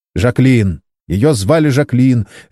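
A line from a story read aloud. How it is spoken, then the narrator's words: Sharp answer. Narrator (Russian): резко ответил Саймон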